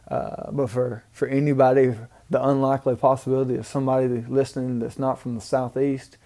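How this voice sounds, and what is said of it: Southern US Mississippi accent. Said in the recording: “I'm from Booneville, Mississippi, if you can't tell from my accent.”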